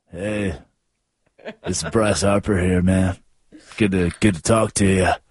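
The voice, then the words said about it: Imitates another person's sexy voice. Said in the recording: “why is he using his sexy voice?”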